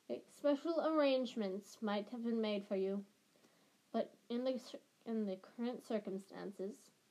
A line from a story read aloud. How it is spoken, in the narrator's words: he sighed